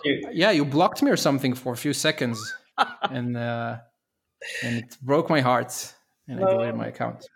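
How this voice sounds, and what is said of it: Sarcastic tone. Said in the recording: “I can hear at least on your voice that you're being sarcastic.”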